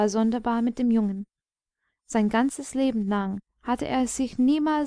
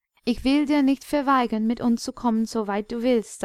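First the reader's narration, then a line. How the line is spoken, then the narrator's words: Plain. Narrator (German): sagte Akka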